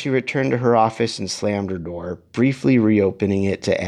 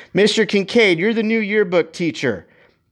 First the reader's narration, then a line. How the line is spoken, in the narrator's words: Guerrero and yelled